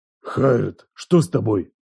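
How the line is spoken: Growl. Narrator (Russian): Прорычал

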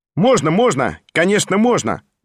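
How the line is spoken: Loud cheerful shout. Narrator (Russian): Громко и весело крикнул сам Петр Степанович

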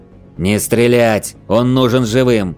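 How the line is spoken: Shout. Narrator (Russian): выкрикнул предводитель

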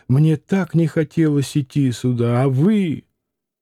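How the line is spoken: Sobbing. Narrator (Russian): Всхлипывая, Алина говорила

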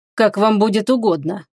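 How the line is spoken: Cold reply by mage. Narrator (Russian): холодно ответил маг

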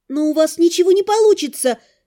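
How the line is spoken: Hopeful, pleading exclamation. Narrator (Russian): воскликнула я, всей душой цепляясь за надежду

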